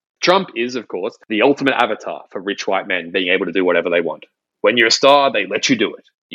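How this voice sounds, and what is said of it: Usual voice. Nothing is said of it.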